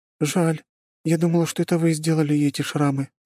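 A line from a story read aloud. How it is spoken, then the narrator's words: Sighing. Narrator (Russian): вздохнула моя пациентка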